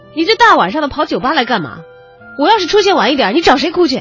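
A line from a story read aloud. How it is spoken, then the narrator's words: Roaring. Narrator (Chinese): 周瑜这一声吼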